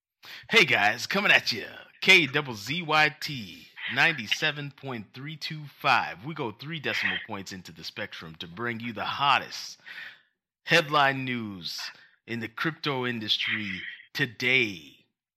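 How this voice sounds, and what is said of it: Exaggerated radio announcer voice. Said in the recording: “See if I could do a better radio voice.”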